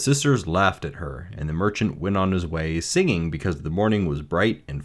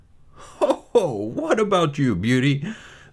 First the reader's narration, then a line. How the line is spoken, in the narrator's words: laughed, full of high spirits